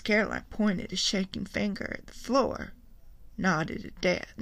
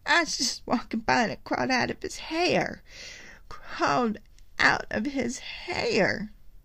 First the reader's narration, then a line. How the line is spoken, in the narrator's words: Miss Caroline said desperately